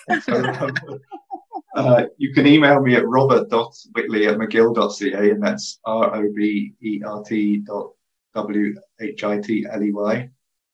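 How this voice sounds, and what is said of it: British accent. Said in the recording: “some people always don't understand my British accent.”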